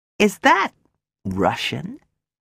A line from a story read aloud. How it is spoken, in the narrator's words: I asked her